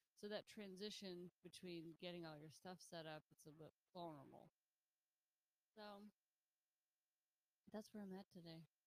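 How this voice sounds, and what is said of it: Tired-sounding voice. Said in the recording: “If I sound tired, I'm a little tired.”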